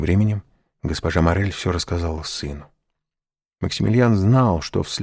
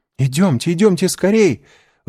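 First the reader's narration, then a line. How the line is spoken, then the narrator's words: Excited exclamation. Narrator (Russian): взволнованно воскликнула Жюли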